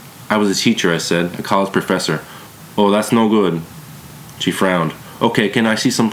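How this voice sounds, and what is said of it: Usual voice. Nothing is said of it.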